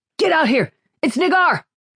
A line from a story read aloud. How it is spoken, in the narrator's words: Jennin shouted